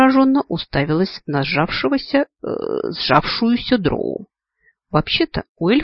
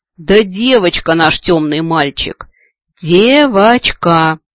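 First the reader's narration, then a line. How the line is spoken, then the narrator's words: Impatient near growl. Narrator (Russian): утратив последние капли терпения, почти прорычала Свитти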